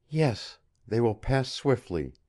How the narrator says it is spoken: she said, so gently that scarce did he hear

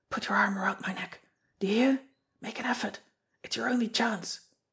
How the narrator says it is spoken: he whispered

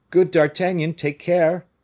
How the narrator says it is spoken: Porthos and Aramis, trembling, cried to the musketeer

